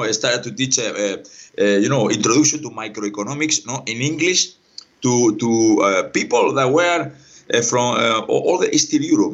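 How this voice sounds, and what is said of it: Strong non-native English accent. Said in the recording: “now I have a strong accent”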